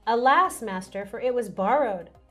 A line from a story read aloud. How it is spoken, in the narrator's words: the iron axe head fell into the water and he cried out and said